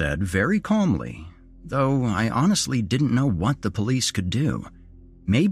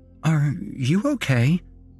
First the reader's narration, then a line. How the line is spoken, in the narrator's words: the nurse asked hesitantly